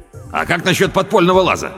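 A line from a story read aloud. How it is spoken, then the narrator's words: Shout. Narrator (Russian): крикнул Педро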